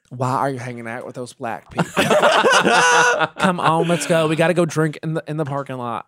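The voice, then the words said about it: Impression of a racist Southern woman. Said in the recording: “that impression ... racist Southern women”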